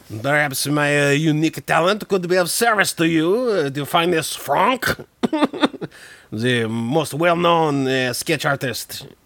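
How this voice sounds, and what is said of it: Bad put-on French accent. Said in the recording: “It's the worst accent. ... It's actually not that bad. ... French people.”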